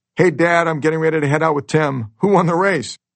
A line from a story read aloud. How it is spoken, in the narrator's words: Mel yelling